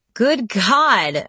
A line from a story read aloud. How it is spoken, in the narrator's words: I laughed